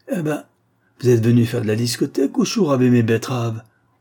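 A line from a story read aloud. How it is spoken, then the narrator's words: Curt, sharp retort. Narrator (French): lança-t-il sèchement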